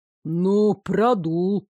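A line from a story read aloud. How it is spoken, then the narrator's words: Deep bass grumble. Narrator (Russian): проворчал кто-то басом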